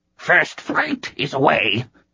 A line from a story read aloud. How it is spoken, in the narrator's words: it hissed